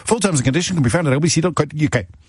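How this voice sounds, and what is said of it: Small print disclaimer voice. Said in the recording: “in my small print voice”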